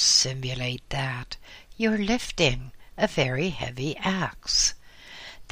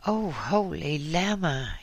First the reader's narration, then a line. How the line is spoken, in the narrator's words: said breathlessly